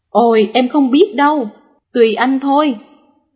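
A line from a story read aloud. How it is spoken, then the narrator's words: Loud laughing. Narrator (Vietnamese): Người vợ cười to và nói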